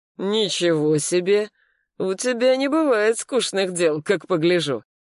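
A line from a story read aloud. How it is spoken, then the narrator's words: Snorting. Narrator (Russian): Дымов хмыкнул и добавил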